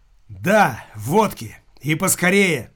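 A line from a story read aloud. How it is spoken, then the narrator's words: Loud hysterical. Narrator (Russian): громким голосом истерически повторил Никита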